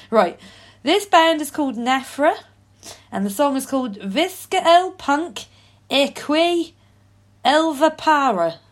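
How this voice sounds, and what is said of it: Put-on Norfolk accent. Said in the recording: “I think you should maintain your Norfolk accent ... this Norfolk accent's going to get away from the fact I can't pronounce this”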